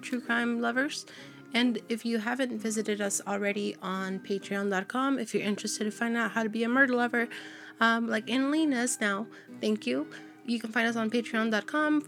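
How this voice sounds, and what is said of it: Slightly raspy voice. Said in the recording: “Does my voice sound different? ... Yeah, it sounds a little raspy.”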